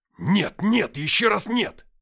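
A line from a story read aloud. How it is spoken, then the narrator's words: Menacing bark. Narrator (Russian): грозно рявкнул Олег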